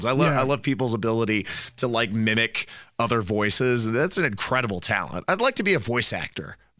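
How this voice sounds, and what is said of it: Voice affected by a cold. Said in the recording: “my voice is all screwed up with the cold”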